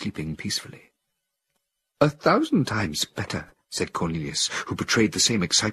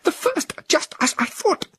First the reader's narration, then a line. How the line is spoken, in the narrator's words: Cornelius exclaimed